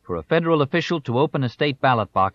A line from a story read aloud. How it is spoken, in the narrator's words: shouted